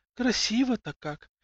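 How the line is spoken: Woman whispering. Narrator (Russian): прошептала одна из женщин

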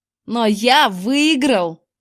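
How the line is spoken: Jubilant yell. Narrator (Russian): ликующе завопил он

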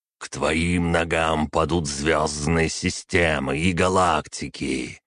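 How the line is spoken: Hissing, formal hierarchic tone. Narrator (Russian): прошипел примарх используя специальный тон иерархов

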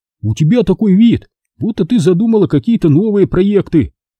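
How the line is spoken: Joyful. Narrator (Russian): радостно сообщил он

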